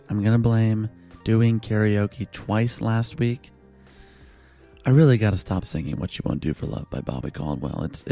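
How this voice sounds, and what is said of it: Slightly worn, hoarse voice. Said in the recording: “My voice is a little bit shot.”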